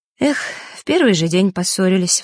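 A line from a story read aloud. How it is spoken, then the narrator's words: Sighing. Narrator (Russian): вздохнула Диана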